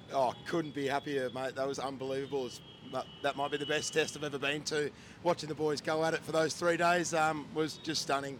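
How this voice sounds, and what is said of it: Hoarse, husky voice. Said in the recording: “My voice is a bit gone, to be honest. I've been screaming my head off just about every delivery for the past 3 days. So if I'm a little bit husky”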